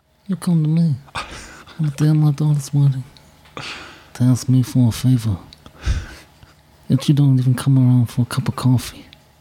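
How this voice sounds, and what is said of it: Godfather impression. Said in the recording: “I do the Godfather voice all the time ... talk like the Godfather”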